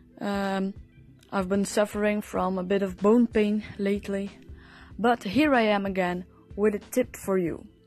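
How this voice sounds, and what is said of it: Voice sounds ill. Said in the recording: “excuse my voice, I'm a bit ill.”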